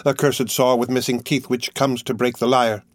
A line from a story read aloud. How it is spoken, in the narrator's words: exclaimed